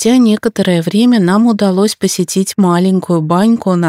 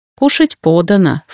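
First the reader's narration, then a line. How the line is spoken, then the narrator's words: Snorting. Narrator (Russian): фыркнула Сату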